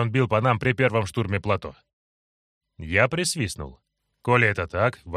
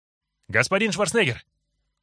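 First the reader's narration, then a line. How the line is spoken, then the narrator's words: Shout from a distance. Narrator (Russian): крикнул он, еще даже не добежав добрый десяток метров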